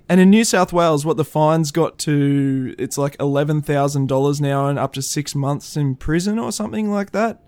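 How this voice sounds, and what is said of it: Australian accent. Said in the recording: “haven't picked up from our accent, we are from Australia, mate”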